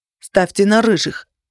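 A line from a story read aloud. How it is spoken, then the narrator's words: Exclaimed by young man. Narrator (Russian): воскликнул веснушчатый молодой человек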